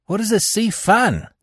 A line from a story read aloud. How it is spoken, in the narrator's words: laughed